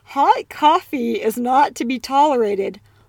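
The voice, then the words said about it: Attempted British accent, fairly good. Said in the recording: “our British accent ... how to speak with a British accent ... Not bad. ... Not bad.”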